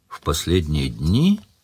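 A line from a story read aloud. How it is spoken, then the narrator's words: Thoughtful repetition. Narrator (Russian): задумчиво повторил Сварог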